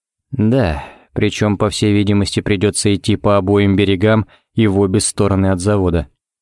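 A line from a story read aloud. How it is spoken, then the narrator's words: Very gloomy. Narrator (Russian): кивнул Ричмонд еще более мрачно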